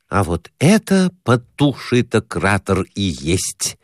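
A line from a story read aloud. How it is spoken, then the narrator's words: Plain. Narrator (Russian): сказал Перехватов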